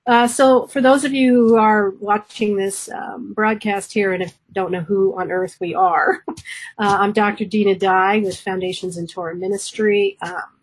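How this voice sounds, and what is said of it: Hoarse, congested voice. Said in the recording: “I am still a little hoarse, still a little congested”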